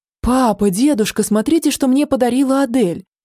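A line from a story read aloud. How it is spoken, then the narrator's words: Delighted exclamation. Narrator (Russian): восхищенно воскликнул воздушник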